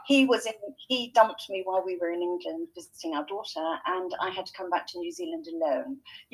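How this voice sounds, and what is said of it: English accent. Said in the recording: “You can probably tell by my accent that I'm not a natural Kiwi ... I grew up in England”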